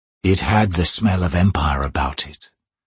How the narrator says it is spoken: Rake muttered

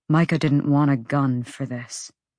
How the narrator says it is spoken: Hunt said, his voice hollow even to his ears

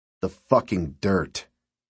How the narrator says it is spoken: Mike said sternly

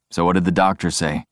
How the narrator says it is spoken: Jeff responds in a flat voice

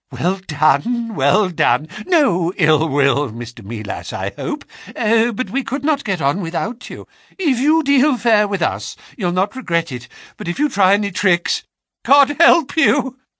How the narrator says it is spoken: He spoke in a nervous, jerky fashion, and with little giggling laughs in between

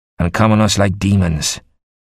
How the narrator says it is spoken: Dafydd ap Trychan said grimly

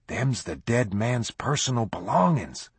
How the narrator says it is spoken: whispered in awe

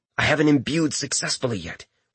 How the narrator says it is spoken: Richter replied in a soft hiss

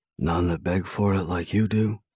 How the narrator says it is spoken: He whispers in a hoarse voice, his grin growing by the second

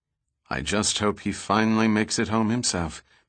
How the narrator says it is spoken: Pitt said solemnly

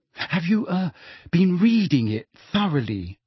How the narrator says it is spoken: Hermione asked still more anxiously

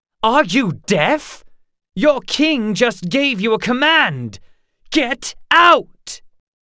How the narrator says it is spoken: shouted

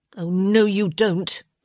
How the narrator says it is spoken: she growled

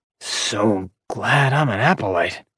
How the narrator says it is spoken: Jerris whispered in Orion's ear

